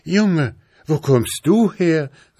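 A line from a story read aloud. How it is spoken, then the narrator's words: Astonished call. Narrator (German): rief sie erstaunt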